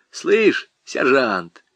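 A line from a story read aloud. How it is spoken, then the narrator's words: Quiet, surprised. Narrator (Russian): тихо и с удивлением сказал Худяков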